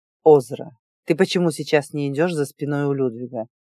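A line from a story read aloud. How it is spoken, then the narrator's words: Cold question. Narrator (Russian): холодно спросил он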